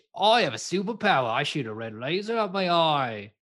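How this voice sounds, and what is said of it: High-pitched annoying Australian accent. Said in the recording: “The guy in the new one has a very annoying Australian accent... He's like very high pitched”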